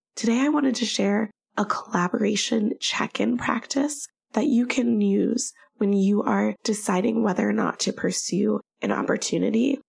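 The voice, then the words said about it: Slightly froggy, sick-sounding voice. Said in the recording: “I'm still sick ... my voice is still a little froggy”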